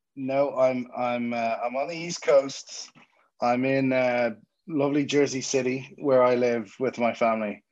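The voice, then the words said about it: Irish Dublin accent. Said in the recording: “My accent is not from Jersey City; it's from Dublin and Ireland.”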